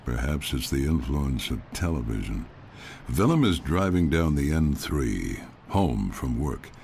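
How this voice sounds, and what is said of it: Older man, American accent. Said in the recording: “an older man with this American accent”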